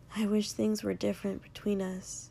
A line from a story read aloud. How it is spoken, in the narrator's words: Izuku said softly